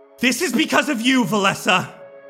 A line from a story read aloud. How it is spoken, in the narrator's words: she yells